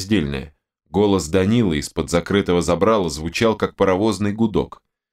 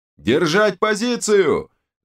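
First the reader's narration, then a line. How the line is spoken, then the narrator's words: Yelled. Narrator (Russian): заорал один из оставшихся командиров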